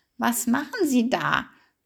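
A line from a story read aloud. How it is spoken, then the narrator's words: Croaking, surprised. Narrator (German): krächzte sie verwundert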